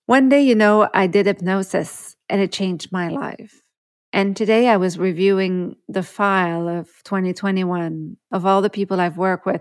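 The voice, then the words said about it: Emotional, moved voice. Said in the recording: “You might hear it in my voice. I am a bit emotional”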